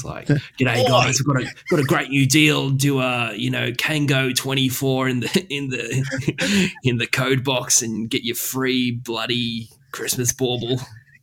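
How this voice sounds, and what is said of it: Exaggerated Australian accent. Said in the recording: “lean into the Australian side of things ... When the time calls for it, I can be as Aussie as you like.”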